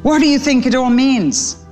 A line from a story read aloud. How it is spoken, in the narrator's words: gasped Sparrow